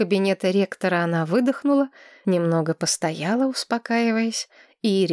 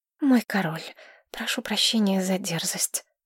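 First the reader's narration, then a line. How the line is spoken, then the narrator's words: Whisper. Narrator (Russian): прошептала она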